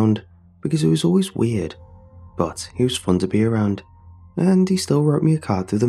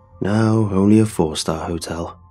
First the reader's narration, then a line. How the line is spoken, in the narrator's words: Uncle Stephen chuckled as he saw my expression